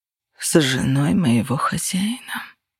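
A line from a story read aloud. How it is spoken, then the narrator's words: Muttering. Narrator (Russian): пробормотал он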